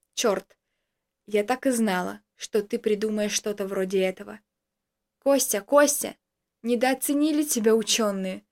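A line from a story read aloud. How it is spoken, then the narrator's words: Calm woman speaking. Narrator (Russian): проговорила спокойно женщина, которая была с Томом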